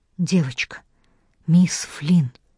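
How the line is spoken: Whispered reply. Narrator (Russian): Почему-то тоже шепотом ответил ей Уильям

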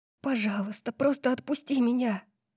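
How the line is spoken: Whisper. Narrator (Russian): прошептала только ему

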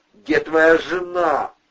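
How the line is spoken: Investigator yelling. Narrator (Russian): орал следователь

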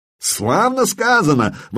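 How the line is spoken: Exclaiming. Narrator (Russian): воскликнул Тьодор

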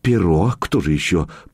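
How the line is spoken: Uncertain mutter. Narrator (Russian): пробормотала красотка, но как-то неуверенно

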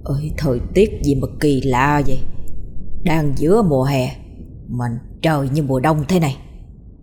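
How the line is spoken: Muttering. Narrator (Vietnamese): Ông Khánh lẩm bẩm

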